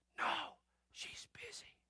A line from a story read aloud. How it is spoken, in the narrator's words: He whispers